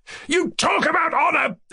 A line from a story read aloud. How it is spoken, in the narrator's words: shouted angrily